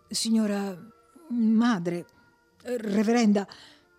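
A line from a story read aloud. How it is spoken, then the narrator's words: Stammered. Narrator (Italian): balbettò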